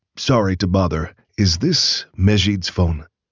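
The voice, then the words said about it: Woman's voice, Pakistani accent. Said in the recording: “a woman with a Pakistani accent answered in English.”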